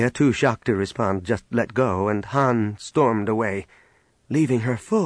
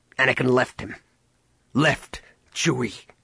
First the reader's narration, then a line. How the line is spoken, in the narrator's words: Han spat